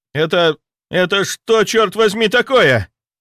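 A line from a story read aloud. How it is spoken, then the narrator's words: Yelling. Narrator (Russian): заорал инспектор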